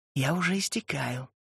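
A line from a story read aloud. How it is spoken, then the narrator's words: Whisper. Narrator (Russian): шепнула она ему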